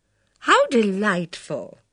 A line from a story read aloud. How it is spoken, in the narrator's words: exclaimed Mrs